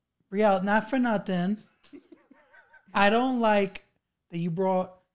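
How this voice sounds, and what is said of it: Exaggerated Long Island accent. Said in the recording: “channel your Long Island accent ... You got to play it up”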